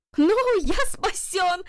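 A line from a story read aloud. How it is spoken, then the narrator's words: Shout. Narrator (Russian): закричал Джарвис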